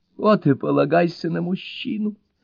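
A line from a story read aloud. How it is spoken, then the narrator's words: Sobbing. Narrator (Russian): рыдает леди Райс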